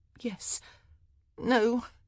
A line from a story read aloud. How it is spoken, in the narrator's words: she groaned